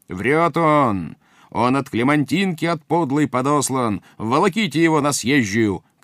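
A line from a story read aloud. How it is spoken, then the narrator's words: Men shouting. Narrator (Russian): кричали атаманы-молодцы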